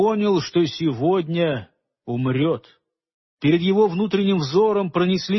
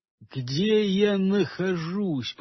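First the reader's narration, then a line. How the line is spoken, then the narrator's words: Muttered. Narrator (Russian): пробормотал он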